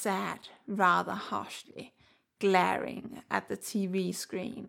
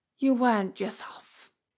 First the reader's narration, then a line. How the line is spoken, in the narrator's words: he said with a sigh